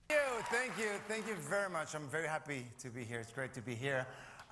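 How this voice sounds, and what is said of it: Noticeable foreign accent. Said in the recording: “have an accent, I think you've noticed, right? But you guys understand me now?”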